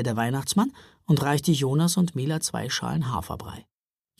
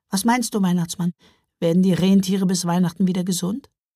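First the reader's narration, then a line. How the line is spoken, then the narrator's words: Sighing in unison. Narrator (German): Der Weihnachtsmann und Santa Claus seufzten im Duett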